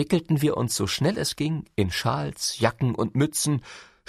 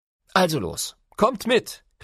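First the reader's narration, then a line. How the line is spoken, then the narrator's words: Calling out. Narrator (German): rief Papa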